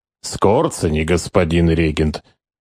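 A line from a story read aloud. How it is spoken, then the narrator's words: Quiet, trusting explanation. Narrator (Russian): тихо, с незнакомой Штуберу доверчивостью объяснил штурмбанфюрер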